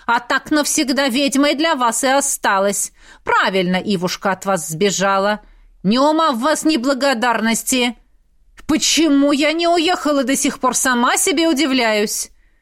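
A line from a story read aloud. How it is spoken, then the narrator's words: Sudden louder barking. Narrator (Russian): Женщина вдруг рявкнула на пару тонов громче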